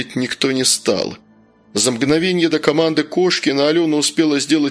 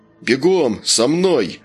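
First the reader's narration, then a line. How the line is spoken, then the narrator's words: Stern command. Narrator (Russian): Федя грозно скомандовал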